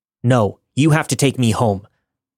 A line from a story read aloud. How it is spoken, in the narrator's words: I replied